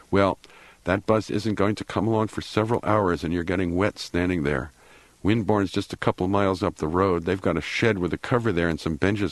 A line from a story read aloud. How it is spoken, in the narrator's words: said